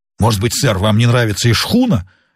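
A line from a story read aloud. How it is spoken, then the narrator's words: Irritated question. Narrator (Russian): раздраженно спросил Сквайр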